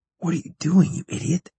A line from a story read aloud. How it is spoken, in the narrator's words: Chaz whispered